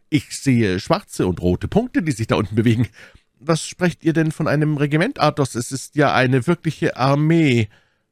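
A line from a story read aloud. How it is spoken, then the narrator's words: Calling out. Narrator (German): rief D'Artagnan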